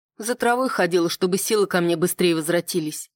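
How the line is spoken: Indifferent, flat. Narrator (Russian): равнодушным голосом произнесла

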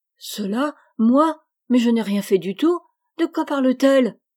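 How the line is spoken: Astonished exclamation. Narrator (French): s'écria Joe tout étonné

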